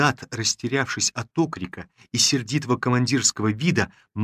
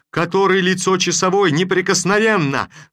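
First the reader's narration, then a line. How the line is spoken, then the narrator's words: Babbling at random. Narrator (Russian): залепетал наобум татарин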